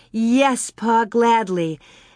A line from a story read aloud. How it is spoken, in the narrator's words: Carrie said eagerly